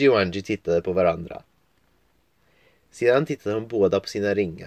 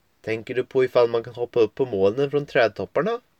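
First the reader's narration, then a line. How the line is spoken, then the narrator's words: Plain question. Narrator (Swedish): frågade Angie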